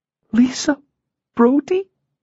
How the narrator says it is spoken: she squeaked

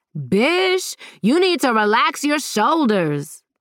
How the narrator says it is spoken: Zara yelled

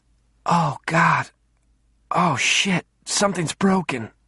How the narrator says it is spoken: she moaned

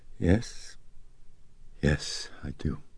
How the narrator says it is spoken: Chris weakly, she said

